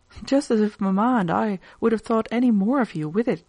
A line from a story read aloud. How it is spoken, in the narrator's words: exclaimed Edith